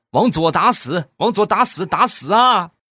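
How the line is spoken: Shouting from behind. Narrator (Chinese): 后边接着又喊

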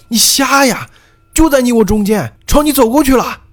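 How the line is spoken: Loud shout. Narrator (Chinese): 我大声朝他喊

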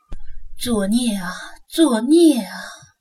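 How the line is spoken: Elderly, sighing repeatedly. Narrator (Chinese): 上了年纪的老人一个劲儿的叹息道

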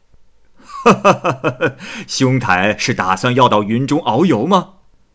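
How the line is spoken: Laughing. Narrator (Chinese): 那人笑着说

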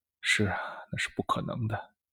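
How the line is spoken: Listless sigh. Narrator (Chinese): 尤维亚的眼神又回到空洞无神的样子，叹了一口气说

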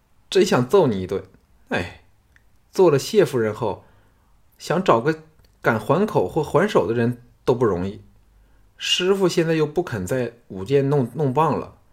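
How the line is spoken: Laughing, playful scolding. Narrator (Chinese): 单柔笑得似花枝乱颤的，嗔道

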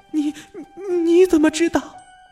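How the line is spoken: Frightened, trembling cry. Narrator (Chinese): 比尔吓得满头大汗，颤声的叫了起来

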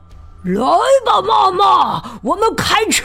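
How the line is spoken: Howling. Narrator (Chinese): 陌生人 嚎叫着说

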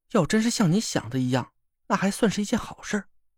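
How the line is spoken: Sighing. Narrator (Chinese): 王月叹了口气

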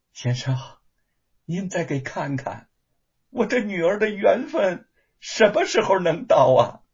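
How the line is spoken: Sighing, reluctant question. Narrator (Chinese): 叶云娘不由得叹了口气儿，又不甘心的问

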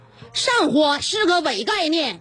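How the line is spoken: Loud shouting. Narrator (Chinese): 我在他面前大声的喊道

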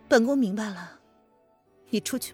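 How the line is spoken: Weary. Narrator (Chinese): 林渊…疲惫的

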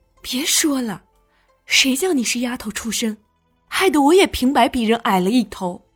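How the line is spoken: Sighing, resentful. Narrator (Chinese): 梅姨娘叹了一口气 不无埋怨的说道

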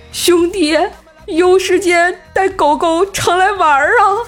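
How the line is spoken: Shouting after someone. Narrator (Chinese): 无忌对着那远去的背影喊

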